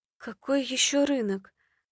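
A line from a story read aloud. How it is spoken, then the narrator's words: Thoughtful mumble. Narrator (Russian): пробормотала задумчиво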